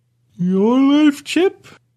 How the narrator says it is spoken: I asked as I yawned

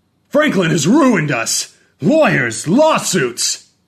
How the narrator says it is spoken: he yelled that loud enough for Franklin to hear, clear upstairs

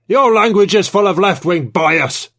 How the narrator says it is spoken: Trevithick bellowed

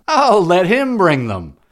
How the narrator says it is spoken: with trembling, cried out

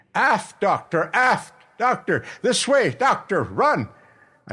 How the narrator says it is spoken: the captain was shouting to me

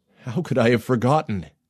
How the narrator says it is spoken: He gasped

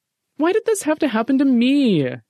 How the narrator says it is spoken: Jeffy whined

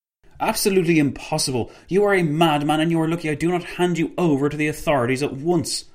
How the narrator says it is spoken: Paul von Lettow-Vorbeck spat in Pavel Lobova's direction

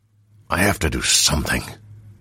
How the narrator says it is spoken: Roshar hissed

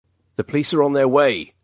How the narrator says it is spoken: Daniel bellowed, hoping his threat was enough to perturb the maniac

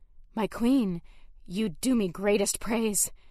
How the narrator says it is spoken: I breathed, breaking the words

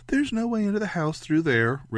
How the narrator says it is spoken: Ray said brightly

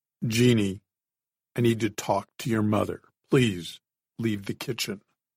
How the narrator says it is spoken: In that same steady voice, he said

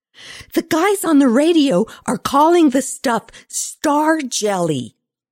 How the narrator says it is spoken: Lindsay bellowed

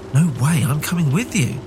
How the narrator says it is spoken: she exclaimed

